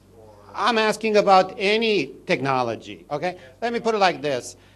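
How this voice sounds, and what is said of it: Speaks with an accent. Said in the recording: “my accent sometimes gets in the way”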